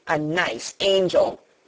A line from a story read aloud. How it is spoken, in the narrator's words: Colin sneered ferociously